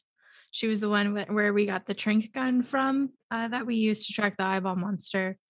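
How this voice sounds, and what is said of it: Rough, impaired voice. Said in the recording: “sorry, excuse my voice.”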